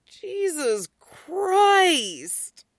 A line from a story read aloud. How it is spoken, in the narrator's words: Styles moans